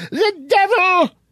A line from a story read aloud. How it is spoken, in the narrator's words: screamed the pious old lady